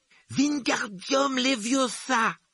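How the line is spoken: Exclaimed. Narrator (French): s'écriait-il

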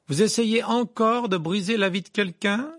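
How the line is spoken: Loud voice. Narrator (French): lança Harry d'une voix forte

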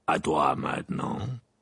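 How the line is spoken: Growled. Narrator (French): grogna Maugré

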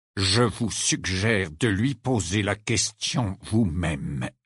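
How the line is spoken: Halting, choppy retort. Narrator (French): répliqua Rogue d'une voix hachée

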